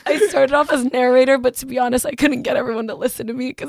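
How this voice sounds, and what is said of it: Hoarse, worn-out voice. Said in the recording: “I was narrating, so that is why my voice is gone.”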